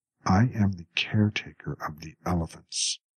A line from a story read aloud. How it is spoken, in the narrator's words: Samsa said in a controlled voice